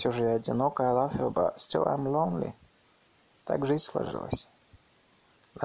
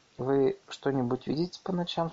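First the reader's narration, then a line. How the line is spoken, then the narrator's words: Plain question. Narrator (Russian): спросил Королев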